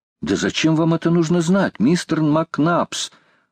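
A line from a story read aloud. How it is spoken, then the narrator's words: Exclaiming. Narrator (Russian): воскликнул Роберт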